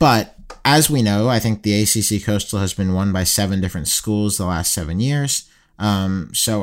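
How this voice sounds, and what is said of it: Usual voice. Nothing is said of it.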